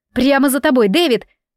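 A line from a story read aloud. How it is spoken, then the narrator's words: Weak shout. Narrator (Russian): слабо прокричала я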